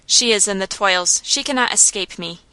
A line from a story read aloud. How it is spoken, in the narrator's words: muttered